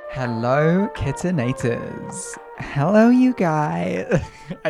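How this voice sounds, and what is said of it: Put-on American accent. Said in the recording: “The American accent needs to be scrapped. ... try not to do the American accent.”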